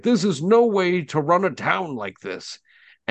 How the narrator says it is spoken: shout out, and somebody yells out to her, and they say

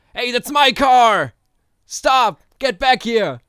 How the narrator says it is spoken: a man with a half-shaven head shouting

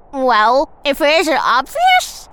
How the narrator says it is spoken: Tick says, happily munching on a mouthful of Bug Baby

